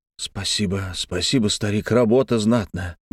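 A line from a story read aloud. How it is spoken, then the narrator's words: Mutter. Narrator (Russian): бормотал Алексей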